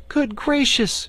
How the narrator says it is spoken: cried Dorothy

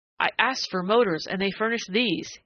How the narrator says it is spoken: he cried disgustedly

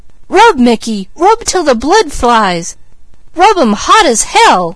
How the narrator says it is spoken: with wide eyes, listened, her breath coming faster and faster, until suddenly she leaned forward and cried

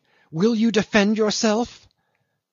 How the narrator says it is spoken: she cried menacingly

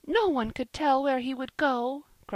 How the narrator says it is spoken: cried, wringing her hands

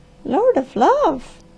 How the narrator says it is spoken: she gasped

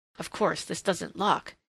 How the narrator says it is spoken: he muttered

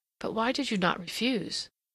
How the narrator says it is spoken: Some, the frankest, murmured

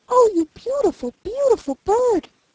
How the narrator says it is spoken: cried he

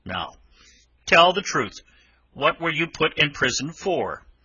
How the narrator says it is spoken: The engine driver looked down upon him very sternly and said

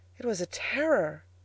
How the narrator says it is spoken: cried the Angel

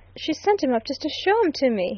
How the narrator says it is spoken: he quoted wildly

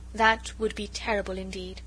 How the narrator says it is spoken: he said quietly

